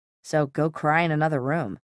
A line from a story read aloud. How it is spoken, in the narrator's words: Jace said, his voice devoid of warmth